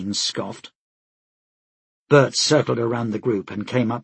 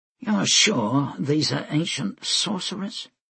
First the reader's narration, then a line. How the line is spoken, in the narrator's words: he asked quietly